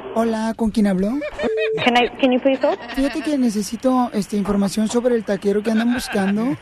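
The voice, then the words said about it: Feminine Salvadoran voice. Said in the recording (Spanish): “pon la voz esa, la, femenina salvadoreña”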